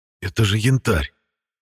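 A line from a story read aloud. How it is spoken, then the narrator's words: Childlike delighted exclamation. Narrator (Russian): с детским восторгом воскликнул я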